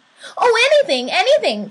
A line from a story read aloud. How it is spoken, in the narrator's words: cried the little soul